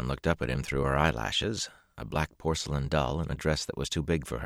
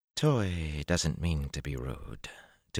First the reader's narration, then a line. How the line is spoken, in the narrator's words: Tuan murmured in that slow honey drawl